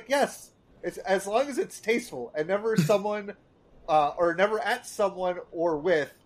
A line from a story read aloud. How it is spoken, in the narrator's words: Marge's like she starts laughing, and she's like